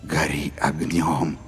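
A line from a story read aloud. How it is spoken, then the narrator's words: Whispered by many. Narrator (Russian): шептали люди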